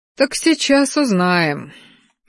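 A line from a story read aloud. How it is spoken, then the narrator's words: Sigh. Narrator (Russian): вздохнул ректор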